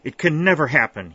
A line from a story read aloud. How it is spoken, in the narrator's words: he exclaimed, carried away by the impulse